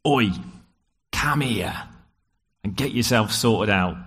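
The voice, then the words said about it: Put-on rough British accent. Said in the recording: “discipline children in that accent. It works better.”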